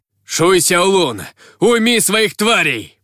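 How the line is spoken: Barked. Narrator (Russian): рявкнул он

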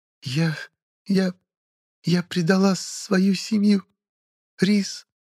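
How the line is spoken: Speech broken by sobs. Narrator (Russian): поведала нелюдь в перерывах между всхлипываниями

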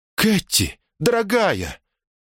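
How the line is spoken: Exclaiming. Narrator (Russian): воскликнула Элизабет

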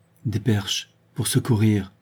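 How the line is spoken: Murmured. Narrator (French): murmura Véronique

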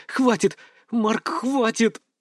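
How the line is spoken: Exhaled through clenched teeth. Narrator (Russian): выдохнула она сквозь зубы

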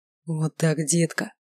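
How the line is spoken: Whispered. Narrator (Russian): шептал он

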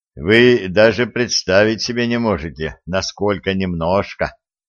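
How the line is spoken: Dejected sigh, young man. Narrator (Russian): удрученно вздохнул юноша

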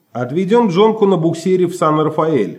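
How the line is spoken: Plain. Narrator (Russian): ответил Чарли

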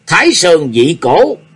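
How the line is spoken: Shouted. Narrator (Vietnamese): Nhạc Chi Dương quát

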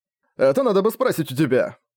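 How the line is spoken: Nearly shouting. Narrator (Russian): практически прокричал Бенисек

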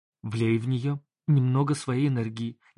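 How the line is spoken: Sudden whisper in ear. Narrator (Russian): неожиданно прошептали мне на ухо

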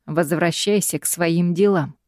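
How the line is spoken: Dry reply. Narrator (Russian): сухо отвечает Гай

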